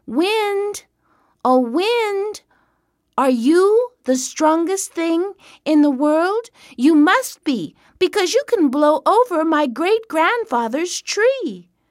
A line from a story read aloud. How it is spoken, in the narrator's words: the boy stopped and called out